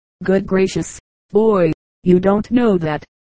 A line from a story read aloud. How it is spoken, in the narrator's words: indignantly returned his parent